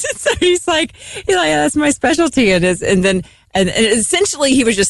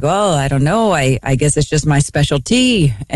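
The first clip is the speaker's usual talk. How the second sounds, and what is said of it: Put-on Norwegian accent. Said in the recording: “Norwegian accent”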